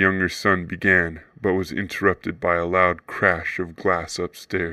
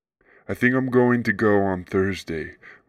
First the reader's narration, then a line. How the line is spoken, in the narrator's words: Margaret answered